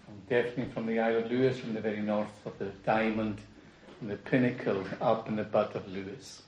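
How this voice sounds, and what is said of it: Isle of Lewis Scottish accent. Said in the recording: “you can tell from my accent, I'm definitely not from London”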